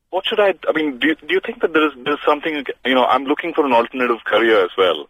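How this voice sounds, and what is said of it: Indian-tinged English accent. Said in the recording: “my accent, which still has an Indian tone to it”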